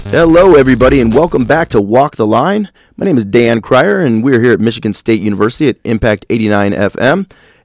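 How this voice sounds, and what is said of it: Slightly raspy voice. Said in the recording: “I got a cold, and I still have a little raspiness to my voice, which I think sounds a little bit cooler than normal”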